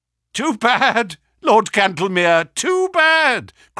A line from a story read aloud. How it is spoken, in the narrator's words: cried Holmes